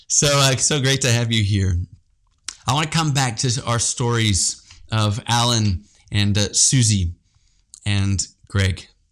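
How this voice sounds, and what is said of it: South African accent. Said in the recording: “you can hear the South African accent”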